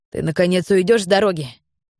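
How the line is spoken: Man shouting. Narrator (Russian): выкрикнул он

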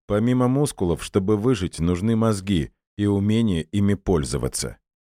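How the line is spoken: Cold, smiling. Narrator (Russian): холодно улыбнулся Эдуард

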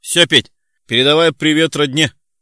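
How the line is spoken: Shout from a distance. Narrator (Russian): уже из лифта крикнул Семен

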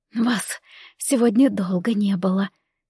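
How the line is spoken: Quiet speech. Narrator (Russian): тихо сказала мама

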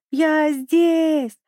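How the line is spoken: Full-strength shout. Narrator (Russian): закричал Пик изо всех сил

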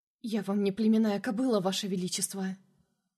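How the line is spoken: Hoarse with anxiety and fear. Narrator (Russian): произнесла голосом, охрипшим от волнения и страха

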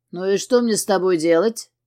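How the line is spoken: Menacing male voice. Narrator (Russian): Грозно произносит он

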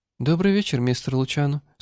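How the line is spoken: Soft velvety voice. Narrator (Russian): сказала она мягким бархатным голосом

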